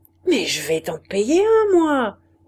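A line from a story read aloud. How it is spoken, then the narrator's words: Shout. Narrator (French): cria-t-il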